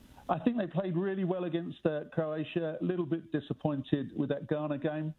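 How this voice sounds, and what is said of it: English accent. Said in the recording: “with my accent, I'm English.”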